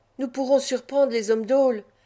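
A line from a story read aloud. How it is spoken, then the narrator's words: Exclamation. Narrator (French): s'écria l'Oulamre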